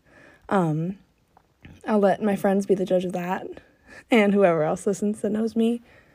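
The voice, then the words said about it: Voice sounds sick with a cold. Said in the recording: “I have a cold, ... my voice doesn't normally sound like this”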